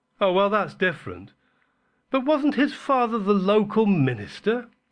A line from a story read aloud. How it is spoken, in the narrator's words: asked William earnestly